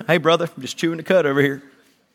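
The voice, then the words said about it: North Carolina accent. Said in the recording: “That was my North Carolina accent coming out over there.”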